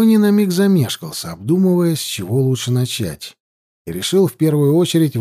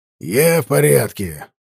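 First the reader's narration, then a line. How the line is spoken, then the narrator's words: Emperor snapping back. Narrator (Russian): огрызнулся император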